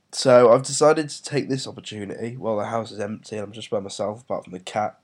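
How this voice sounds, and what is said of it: Congested voice from a cold. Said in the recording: “As you may hear, I am feeling pretty shit at the moment. I have a cold.”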